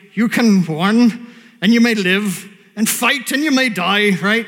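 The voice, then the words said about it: Put-on Scottish accent. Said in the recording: “crappy Scottish accent, but it's not bad”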